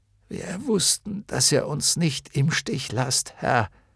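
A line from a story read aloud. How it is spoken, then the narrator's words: Croaked. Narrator (German): krächzte Hykrion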